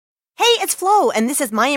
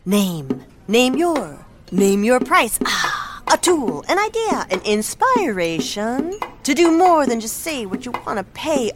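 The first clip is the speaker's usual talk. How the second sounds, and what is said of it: Beat poet style delivery. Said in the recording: “my impression of a beat poet”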